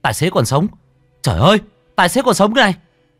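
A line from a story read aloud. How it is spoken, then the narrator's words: Excited shout. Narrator (Vietnamese): có ai đó la lên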